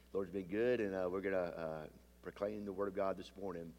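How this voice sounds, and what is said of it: Deep, congested voice. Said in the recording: “I got a little deep voice this morning, but just a little sinus issue”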